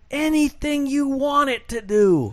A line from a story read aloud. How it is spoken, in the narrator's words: he screamed back